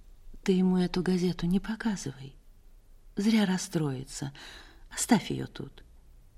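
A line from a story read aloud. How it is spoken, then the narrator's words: Quiet. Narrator (Russian): Она тихо сказала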